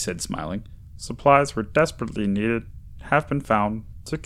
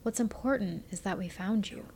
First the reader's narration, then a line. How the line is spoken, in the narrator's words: she said in a gentle voice